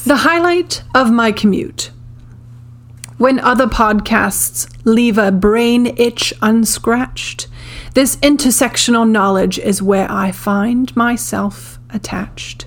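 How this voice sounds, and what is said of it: Theatrical Shakespearean reading voice. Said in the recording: “Let me get my William Shakespeare voice on.”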